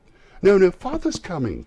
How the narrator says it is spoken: cried the two young Cratchits

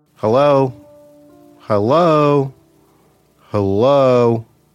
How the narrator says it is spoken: shouted out several times

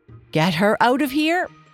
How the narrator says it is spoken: the queen shouted at the top of her voice

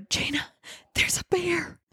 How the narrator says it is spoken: She whispered

